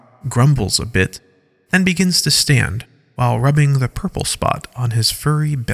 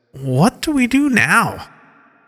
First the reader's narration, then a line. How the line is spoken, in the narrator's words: In a rather groggy voice, he says